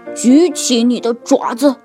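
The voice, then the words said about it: Fierce, cold commanding voice. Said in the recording (Chinese): “用凶狠的、冰冷的声音说”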